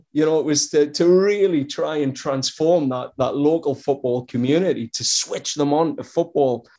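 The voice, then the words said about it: Strong Geordie accent. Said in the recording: “accent's as strong as ever... You haven't picked up any North American twang... Posh Geordie”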